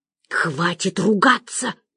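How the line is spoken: Hissed. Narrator (Russian): прошипела я

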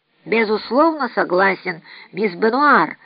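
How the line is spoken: Plain. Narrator (Russian): ответил Адольф

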